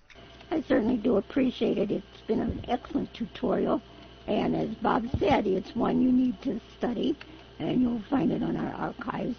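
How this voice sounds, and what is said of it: Hoarse voice from laryngitis. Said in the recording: “I apologize for my laryngitis ... You sound terrible there.”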